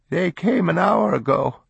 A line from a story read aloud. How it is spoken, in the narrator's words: the grandmother told them, her voice broken with emotion